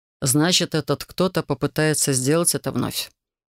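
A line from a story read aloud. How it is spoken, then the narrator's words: Grim declaration. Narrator (Russian): мрачно заявил Витторн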